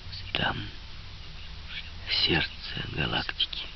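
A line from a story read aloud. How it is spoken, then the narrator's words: Quiet. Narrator (Russian): Он тихо сказал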